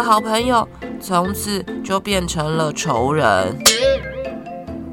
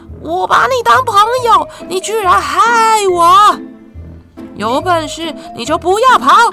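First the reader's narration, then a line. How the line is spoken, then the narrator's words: Angry shouting. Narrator (Chinese): 他气得还一边大喊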